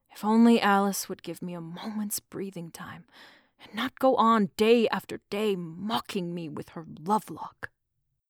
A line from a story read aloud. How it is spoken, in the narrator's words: added with a sigh